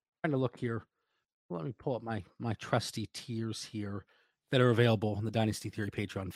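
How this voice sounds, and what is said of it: Scratchy voice from a cough. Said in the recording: “My voice is still a little scratchy. I can't kick it. I can't kick this cough.”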